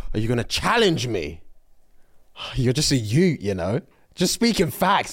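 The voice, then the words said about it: Put-on Nigerian English accent. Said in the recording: “I can hear it in a Nigerian English accent so well.”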